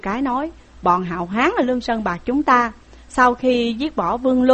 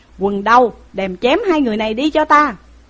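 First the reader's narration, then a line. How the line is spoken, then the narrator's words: Furious angry shout. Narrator (Vietnamese): Tiểu Cái nghe dứt lời đùng đùng nói giận mà quát lên rằng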